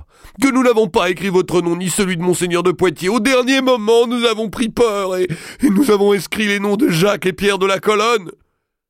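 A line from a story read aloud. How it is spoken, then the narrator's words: Exclamation. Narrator (French): s'écria Évrard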